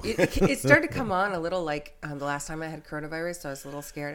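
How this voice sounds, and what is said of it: Raspy voice. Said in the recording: “Do you hear that raspiness? ... I was sick all week”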